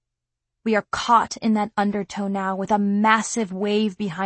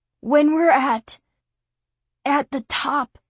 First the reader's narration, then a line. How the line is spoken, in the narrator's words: Kelton wheezes between labored breaths and coughs